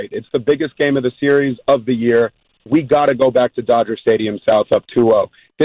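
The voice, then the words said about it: Hoarse, nearly lost voice. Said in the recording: “Excuse my voice. It's all gone because I was going so hard last night at Dodger Stadium making sure that we were cheering.”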